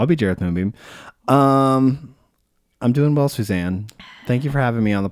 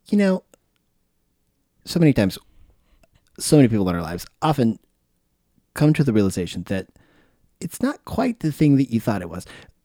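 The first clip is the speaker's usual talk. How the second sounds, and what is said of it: Imitates another person's voice. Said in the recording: “My Ira Glass impression? ... It's good. ... right off the cuff and not bad.”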